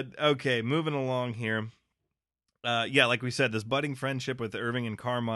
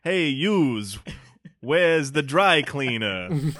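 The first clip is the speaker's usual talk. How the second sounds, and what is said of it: Exaggerated put-on New York accent. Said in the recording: “a Californian trying to do a New York accent, so it's almost kitsch. It's like an SNL skit.”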